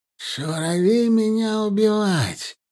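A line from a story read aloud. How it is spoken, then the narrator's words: Drawn out through teeth. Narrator (Russian): протянул сквозь зубы Мухтар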